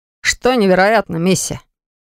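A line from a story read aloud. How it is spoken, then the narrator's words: Bored question. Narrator (Russian): Скучающим тоном спросил Ирвик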